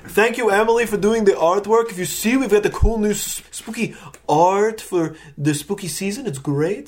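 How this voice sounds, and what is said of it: Put-on Transylvanian accent. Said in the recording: “my Transylvanian accent is kind of changing”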